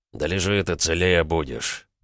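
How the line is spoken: Through gritted teeth. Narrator (Russian): Процедил он животному

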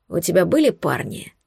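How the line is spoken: Hoarse rasp. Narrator (Russian): прохрипел он

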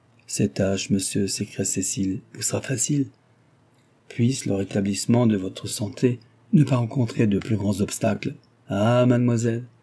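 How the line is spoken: Reproachful forced-smile retort. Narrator (French): repartit-il avec un sourire forcé et d'un air de reproche

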